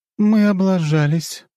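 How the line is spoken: Young woman's sigh. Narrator (Russian): вздохнула девушка

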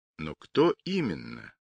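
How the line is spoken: Thoughtful question. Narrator (Russian): задумчиво спросил лейтенант

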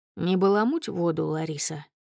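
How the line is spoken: Calm fatherly voice. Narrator (Russian): спокойно говорит папа

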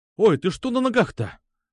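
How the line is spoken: Startled exclamation. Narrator (Russian): вскрикнул

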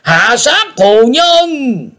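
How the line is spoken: Crowd shouting in unison. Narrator (Vietnamese): Quyền Âm giáo chúng đồng thét lớn

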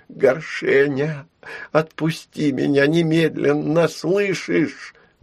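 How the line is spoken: Pleading. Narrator (Russian): взмолилась Яра

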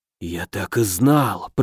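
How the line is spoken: Whisper. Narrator (Russian): прошептал Аш

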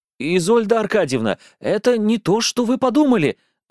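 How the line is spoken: Nervous desperate babbling. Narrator (Russian): залепетал я

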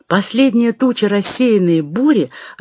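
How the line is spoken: Joyful shout. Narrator (Russian): радостно кричит он в третий раз

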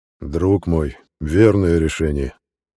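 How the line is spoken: Deep bass voice. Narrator (Russian): пробасил он

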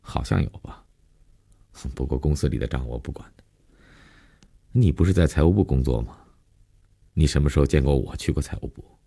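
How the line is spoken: Casual, indifferent. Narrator (Chinese): 林信成没有一点被揭露的尴尬和紧张，淡淡的，无所谓的承认

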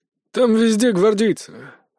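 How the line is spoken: Hoarse grumble into phone. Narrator (Russian): хрипло пробурчал Мокруха в трубку

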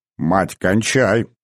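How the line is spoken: Reproachful deep drone. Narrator (Russian): с укором прогудел отец

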